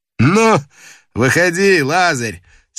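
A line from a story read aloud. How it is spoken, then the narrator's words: Laughing. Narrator (Russian): смеясь, сказал он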